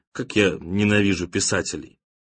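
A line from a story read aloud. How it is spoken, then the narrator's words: Dry after crying. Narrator (Russian): Отплакав и отсморкавшись, сухо добавил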